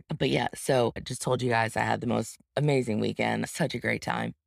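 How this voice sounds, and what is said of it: Scratchy, tired voice. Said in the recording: “My voice is a little bit scratchy because your girl's tired. Your girl's real tired.”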